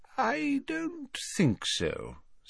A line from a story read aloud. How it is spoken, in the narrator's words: said Dumbledore quietly